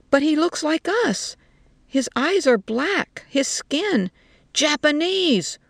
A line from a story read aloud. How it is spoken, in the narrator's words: one of them shouted at her